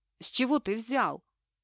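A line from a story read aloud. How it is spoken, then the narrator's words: Startled blurt. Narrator (Russian): встрепенулась она и выпалила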